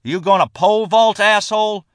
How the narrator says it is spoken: John Harden shouted

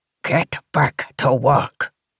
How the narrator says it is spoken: he growled, his voice guttural

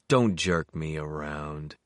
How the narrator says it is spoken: he said wearily

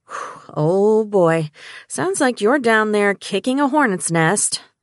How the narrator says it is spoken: she sighed

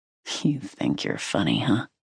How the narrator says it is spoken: He growled

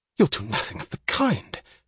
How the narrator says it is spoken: she gasped, too incredulous to be angry

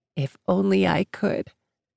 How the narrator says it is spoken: smiled sadly, shaking her head, then said

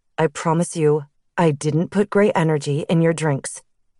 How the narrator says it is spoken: he said calmly

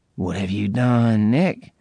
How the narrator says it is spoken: She breathed in a horrified tone

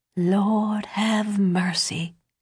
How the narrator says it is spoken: Deborah whispered, covering her mouth with her hand

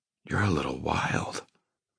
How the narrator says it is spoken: I whisper, awed

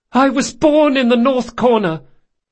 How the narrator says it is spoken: he yelled

